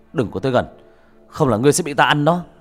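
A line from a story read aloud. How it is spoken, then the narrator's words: Shout. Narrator (Vietnamese): Bác cổ quát lên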